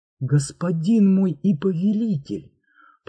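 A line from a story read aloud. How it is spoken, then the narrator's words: Barely audible whisper. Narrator (Russian): прошептал он чуть слышно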